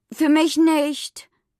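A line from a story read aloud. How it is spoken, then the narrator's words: Determined call. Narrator (German): rief entschlossen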